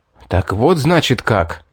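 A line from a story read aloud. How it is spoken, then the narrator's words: Furious hiss. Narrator (Russian): Прошипел я, да нельзя обозленный заявлением хищницы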